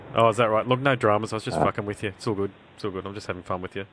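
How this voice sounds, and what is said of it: Strained, sore-throat voice. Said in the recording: “my voice is a bit... my voice is a bit... not sensitive... when you've got a sore throat?”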